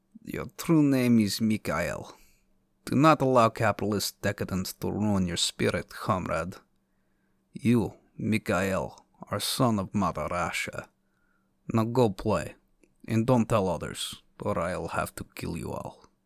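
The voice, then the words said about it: Whispered put-on foreign accent. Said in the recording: “Your mother whispers in an accent you've never heard before.”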